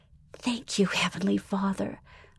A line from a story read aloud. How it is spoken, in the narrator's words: Melissa whispered